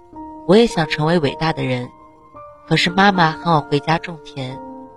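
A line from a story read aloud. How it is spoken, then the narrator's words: Flat, indifferent. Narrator (Chinese): 他淡淡的说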